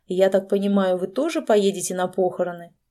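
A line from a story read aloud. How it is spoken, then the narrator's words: Satisfied grunt, then continuing. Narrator (Russian): Олег удовлетворенно хмыкнул и продолжил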